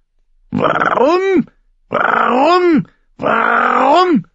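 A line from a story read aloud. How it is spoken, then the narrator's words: Raven screaming. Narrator (German): schrie der Rabe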